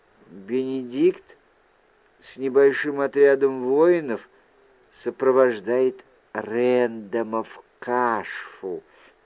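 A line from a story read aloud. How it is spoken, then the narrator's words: Quiet. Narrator (Russian): тихо произнесла Вайл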